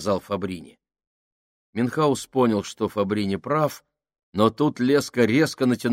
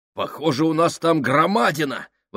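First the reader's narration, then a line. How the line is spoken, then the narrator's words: Exclaiming. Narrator (Russian): воскликнул он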